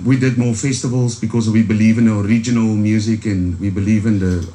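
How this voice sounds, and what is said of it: Strong Afrikaans accent. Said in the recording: “I've got a strong Afrikaans accent.”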